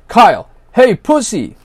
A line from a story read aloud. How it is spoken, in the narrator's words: yelled at him